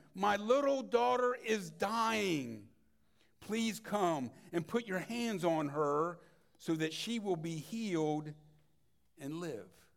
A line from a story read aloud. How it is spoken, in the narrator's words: He pleaded earnestly with him